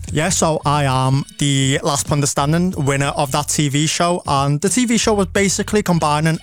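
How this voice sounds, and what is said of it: Scouse Liverpool accent. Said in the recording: “loving the accent... Scouse South Asians do exist”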